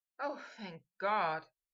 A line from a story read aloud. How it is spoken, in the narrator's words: Harry sighed